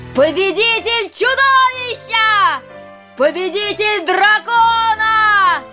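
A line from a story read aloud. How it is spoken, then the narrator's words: Crowd shouting. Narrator (Russian): кричали люди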